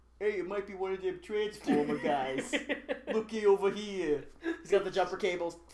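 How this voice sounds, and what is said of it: Put-on Boston accent. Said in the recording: “He has that Boston accent.”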